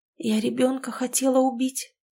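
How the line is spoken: Dejected whisper. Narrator (Russian): понуро прошептала Нина

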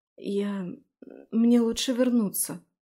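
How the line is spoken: Hurried, stammering. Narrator (Russian): запинаясь, поспешно сказала я

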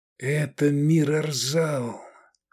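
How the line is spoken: Quiet. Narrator (Russian): тихо сказал Эдик

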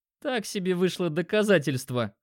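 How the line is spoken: Laughing chuckle. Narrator (Russian): хохотнул Димка

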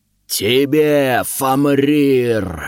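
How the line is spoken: Battle roar. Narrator (Russian): взревел кто-то из гущи битвы

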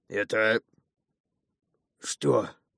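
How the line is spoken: Giant, suddenly hoarse. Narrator (Russian): спросил гигант враз охрипшим голосом

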